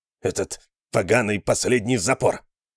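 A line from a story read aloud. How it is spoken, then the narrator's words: Growling. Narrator (Russian): прорычал Талуф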